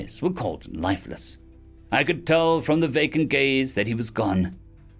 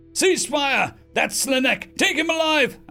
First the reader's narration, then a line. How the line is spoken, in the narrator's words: a commander shouted